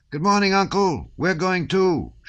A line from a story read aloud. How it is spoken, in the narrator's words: shouted Petya